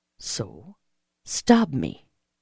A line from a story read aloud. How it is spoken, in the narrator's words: he said softly